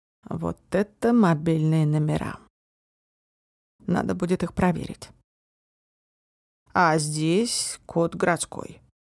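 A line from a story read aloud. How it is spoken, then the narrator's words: Thoughtful drawl. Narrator (Russian): задумчиво протянул Марк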